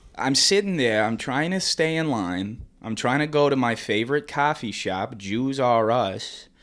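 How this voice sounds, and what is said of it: Put-on stereotyped Jewish accent. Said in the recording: “You have a way better Jewish impression.”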